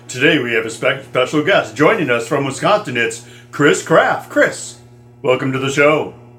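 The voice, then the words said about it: Announcer-style radio voice. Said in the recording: “I just did my radio voice.”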